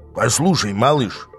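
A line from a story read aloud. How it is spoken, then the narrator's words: Dangerous tone. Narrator (Russian): начал он опасным тоном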